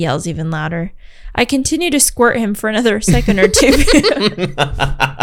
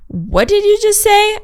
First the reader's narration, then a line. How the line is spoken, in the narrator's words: I shout